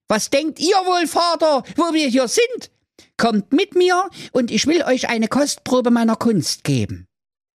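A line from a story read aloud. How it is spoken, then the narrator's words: Calling out. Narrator (German): rief der Klaus III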